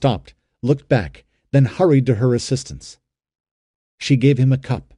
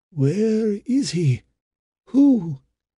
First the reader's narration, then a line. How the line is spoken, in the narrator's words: asked Iris